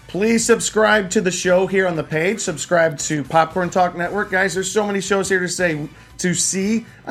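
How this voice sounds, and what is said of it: Hoarse, strained voice. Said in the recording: “I'm just losing my voice”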